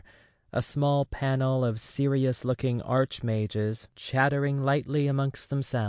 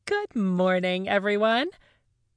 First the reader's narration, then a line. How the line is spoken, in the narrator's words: she chirps, too bright